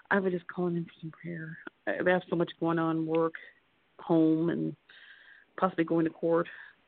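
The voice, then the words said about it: Whispering. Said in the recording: “I'm whispering. ... Sorry, I'm at work.”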